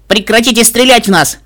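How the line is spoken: Shout. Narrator (Russian): крикнул

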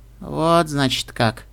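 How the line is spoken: Weak voice. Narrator (Russian): спросила Серафима слабым голосом

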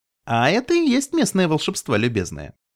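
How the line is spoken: Cheerful. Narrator (Russian): весело сказала пони

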